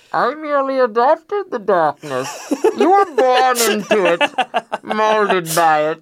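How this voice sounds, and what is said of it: Impression of the movie villain Bane. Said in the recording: “do a Bane impersonation”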